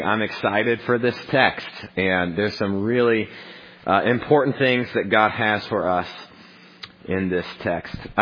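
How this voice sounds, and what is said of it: Voice much deeper than usual. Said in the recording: “my voice is about 4 octaves lower than normal”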